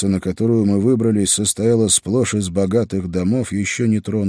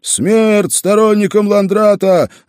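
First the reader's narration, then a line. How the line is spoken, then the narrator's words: Yelling. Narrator (Russian): заорал один из них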